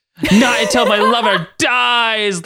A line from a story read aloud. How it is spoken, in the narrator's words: Lady Deathstrike shrieked